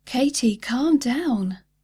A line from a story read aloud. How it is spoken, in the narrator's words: cried over her words